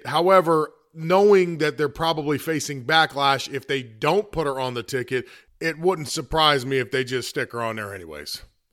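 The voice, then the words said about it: Hoarse, congested voice. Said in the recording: “my voice is a little bit more hoarse than usual. It does get hoarse from time to time... A little bit of a sore throat and definitely congested.”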